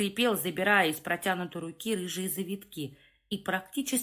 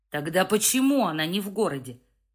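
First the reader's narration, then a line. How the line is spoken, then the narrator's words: Bark. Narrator (Russian): рявкнул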